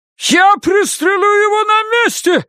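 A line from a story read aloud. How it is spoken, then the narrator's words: Shouted. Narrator (Russian): закричал хозяин магазина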